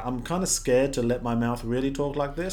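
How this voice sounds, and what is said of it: American accent talking from mouth's side. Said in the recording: “some people how they can only do an American accent if they talk out of the side of their mouth”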